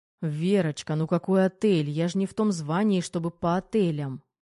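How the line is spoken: Sighing. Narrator (Russian): вздохнул Головин

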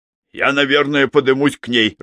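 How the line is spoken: Irritated. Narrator (Russian): раздраженно произнес Хоук

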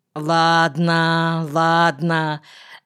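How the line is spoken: Doubtful drawl. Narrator (Russian): недоверчиво протянул Эшерих

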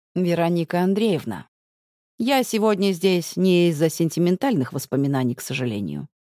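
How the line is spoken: Calm. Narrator (Russian): говорит спокойно

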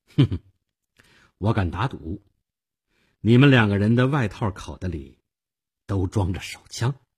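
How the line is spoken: Faint smile. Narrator (Chinese): 我淡淡的一笑

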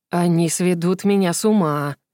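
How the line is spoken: Grumbling under breath. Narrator (Russian): проворчал тот себе под нос

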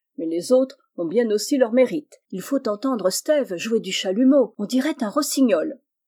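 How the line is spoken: Exclaimed. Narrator (French): s'écria Will

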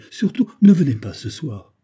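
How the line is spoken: Pleading. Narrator (French): suppliait-elle

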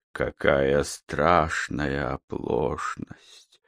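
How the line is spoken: Tearful mutter. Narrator (Russian): плаксиво пробормотал Тихменев

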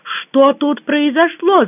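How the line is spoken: Shouted, woman. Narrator (Russian): закричала я

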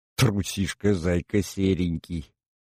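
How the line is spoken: Irritated grumble. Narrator (Russian): проворчал я, выдал в импульсе раздражение

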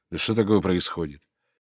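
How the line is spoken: Angry mutter. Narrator (Russian): Сердито бормоча себе под нос

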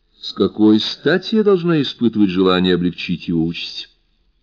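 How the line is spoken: Calm question. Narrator (Russian): Спокойно поинтересовалась она

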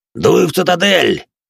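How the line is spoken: Blood-spattered raider barking. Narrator (Russian): рявкнул заляпанный кровью моей первой жертвы рейдер

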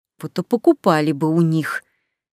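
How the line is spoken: Snakelike nervous hiss. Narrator (Russian): Совсем как змея прошипела нервная блондинка

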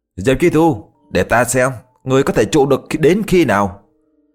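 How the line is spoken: Roaring amid flames. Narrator (Vietnamese): Đại Ly gầm lên trong ngọn lửa

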